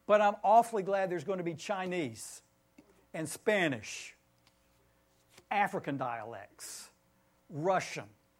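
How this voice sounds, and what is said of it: Southern Tennessee twang accent. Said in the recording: “I am probably terminally Southern. I don't know if you hear Tennessee twang in my accent”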